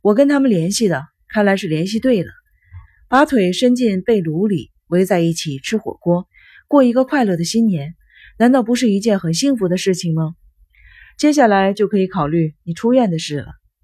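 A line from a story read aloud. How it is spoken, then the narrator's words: Smiling, persuading. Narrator (Chinese): 小野微笑着劝说道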